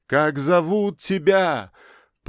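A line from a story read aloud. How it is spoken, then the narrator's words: Desperate shout after someone. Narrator (Russian): Полное отчаяние крикнул он вслед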